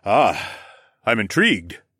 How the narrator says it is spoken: Rodion chuckled

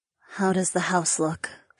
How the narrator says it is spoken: She asked in a low voice

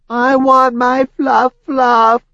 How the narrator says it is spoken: Bob wailed

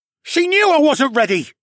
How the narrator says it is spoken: he yelled

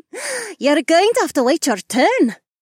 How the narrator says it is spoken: Amarla giggled

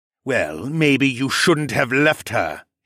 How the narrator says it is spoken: he sneered

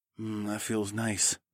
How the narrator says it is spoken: mumbled

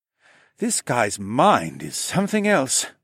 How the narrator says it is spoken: sighed

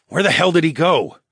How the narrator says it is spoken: I snarled

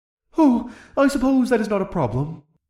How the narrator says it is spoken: the thespian-accented dragon sighed

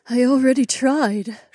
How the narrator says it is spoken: she sighed

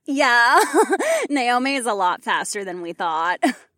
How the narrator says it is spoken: Marina laughed

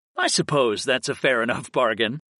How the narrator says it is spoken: I chuckled

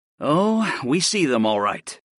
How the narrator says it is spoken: I sighed

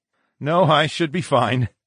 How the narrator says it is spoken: I chuckled

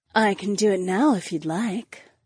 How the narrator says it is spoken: the black-haired woman purred

